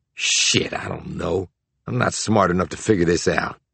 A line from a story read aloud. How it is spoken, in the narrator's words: Mars said in an exasperated tone